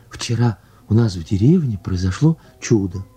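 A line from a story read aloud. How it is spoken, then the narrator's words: Plain. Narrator (Russian): сказала она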